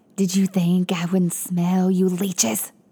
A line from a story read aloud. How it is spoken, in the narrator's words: spat, his voice angry with an unnatural rasp